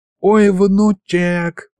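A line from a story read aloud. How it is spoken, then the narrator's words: Old man's groan. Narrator (Russian): простонал дед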